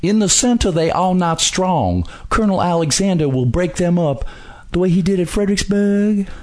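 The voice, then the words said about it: Exaggerated thick flowery southern accent. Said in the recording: “real flowery, just kind of dripping southern accent ... Just kind of dripping and dripping with a really thick, way too thick southern accent, not a Virginia southern accent”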